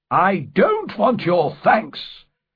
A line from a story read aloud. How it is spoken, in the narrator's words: cried